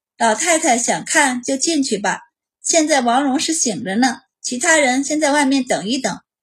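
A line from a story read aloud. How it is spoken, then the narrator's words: Smiling, gentle. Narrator (Chinese): 满宝露出一个笑容，道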